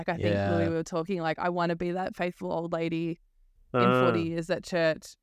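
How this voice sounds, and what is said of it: Sweet Irish accent. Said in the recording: “your sweet Irish accent ... It's just angelic”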